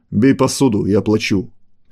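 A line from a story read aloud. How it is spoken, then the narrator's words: Growling. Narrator (Russian): прорычал Серый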